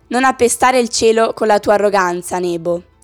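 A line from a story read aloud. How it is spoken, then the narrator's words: Plain. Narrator (Italian): disse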